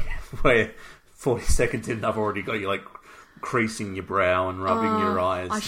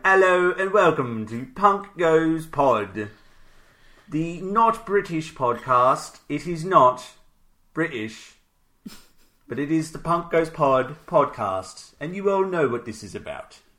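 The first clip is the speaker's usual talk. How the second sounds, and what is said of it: Put-on British accent, slipping at end. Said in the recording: “British accents ... that accent started to slip in the end ... I never claimed to be an accent expert”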